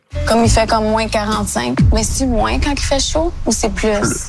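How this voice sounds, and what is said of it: Mixed Acadian Chiac French accent. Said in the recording (French): “C'est un mélange de deux accents. Il y a un accent du Nouveau-Brunswick, il y a un accent chiac, puis il y a un accent d'Ottawa aussi. Donc, c'est mi-acadien, mi-anglophone, très particulier.”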